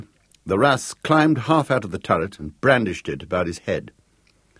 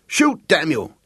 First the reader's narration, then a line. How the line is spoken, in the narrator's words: shouted